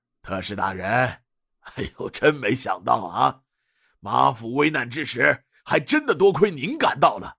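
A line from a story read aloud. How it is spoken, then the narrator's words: Laughing. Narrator (Chinese): 马义坤笑着对尹建平道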